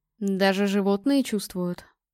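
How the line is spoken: Anxious muttering. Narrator (Russian): пробормотал Корвин с растущей тревогой

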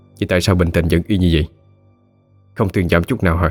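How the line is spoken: Annoyed. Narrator (Vietnamese): Linh Lan khó chịu

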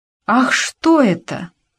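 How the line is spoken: Surprised exclamation. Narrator (Russian): воскликнула она

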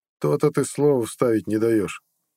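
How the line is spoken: Wry snort. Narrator (Russian): хмыкнул Харалд

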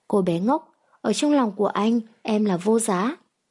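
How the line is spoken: Tender, doting laugh. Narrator (Vietnamese): Hoắc Thiên Kình bị dáng vẻ dè dặt của nàng chọc cười, cười sủng nịch

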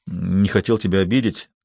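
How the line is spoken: Muttered. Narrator (Russian): пробормотал он

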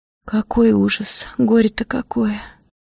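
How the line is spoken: Hoarse voice. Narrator (Russian): сказала она хрипло

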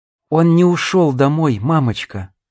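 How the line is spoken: Calm. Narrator (Russian): спокойно произнесла она

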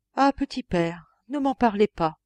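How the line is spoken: Trembling voice. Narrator (French): répondit le diacre d'une voix tremblante

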